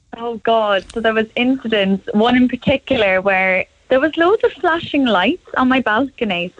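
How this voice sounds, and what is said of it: Cork Irish accent. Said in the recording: “You haven't lost the Cork accent anyway.”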